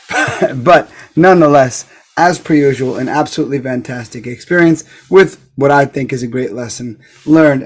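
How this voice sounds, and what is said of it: Worn-out, strained voice. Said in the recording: “As I'm sure you can hear in my voice ... My voice still hasn't recovered from talking my way through 30 fights.”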